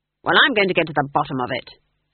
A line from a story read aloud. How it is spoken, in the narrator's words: snapped Granny